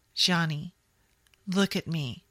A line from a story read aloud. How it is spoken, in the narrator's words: Jamie said calmly